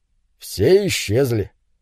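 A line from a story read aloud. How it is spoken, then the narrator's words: Calm, matter-of-fact. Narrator (Russian): Муж спокойно, словно речь шла о погоде, заметил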